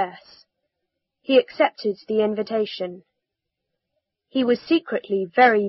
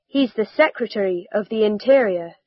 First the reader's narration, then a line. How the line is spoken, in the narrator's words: replied